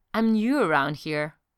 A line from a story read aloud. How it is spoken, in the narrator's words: Loki replied calmly